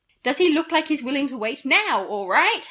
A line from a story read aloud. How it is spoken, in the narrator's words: Harry shouted